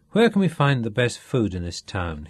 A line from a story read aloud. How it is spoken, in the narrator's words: he asked